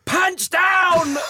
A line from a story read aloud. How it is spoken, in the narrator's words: He'd absolutely bellow